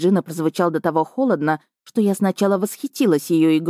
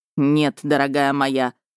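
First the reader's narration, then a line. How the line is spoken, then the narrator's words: Angry growl, man. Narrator (Russian): зло прорычал мужчина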